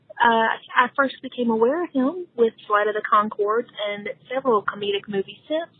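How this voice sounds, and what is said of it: Southern American accent. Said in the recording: “I'm loving your Southern accent. ... shout out to the South”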